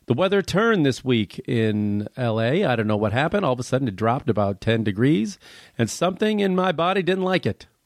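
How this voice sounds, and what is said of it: Congested, stuffed-up voice. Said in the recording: “Pardon my voice if it sounds a little weird. I'm a little stuffed up... I'm fighting off a little cold here, so I'm a little stuffed”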